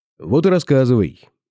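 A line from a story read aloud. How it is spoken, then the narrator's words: Commanding tone. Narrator (Russian): сказал я самым что ни на есть приказным тоном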